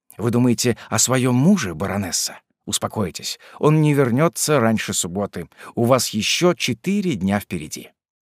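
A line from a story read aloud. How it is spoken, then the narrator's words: Undertone. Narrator (Russian): он сказал ей вполголоса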